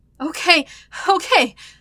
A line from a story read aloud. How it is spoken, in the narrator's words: he heaved in between breaths